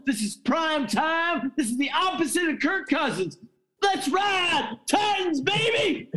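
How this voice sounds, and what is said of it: Excited yelling. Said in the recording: “I'm sorry for yelling.”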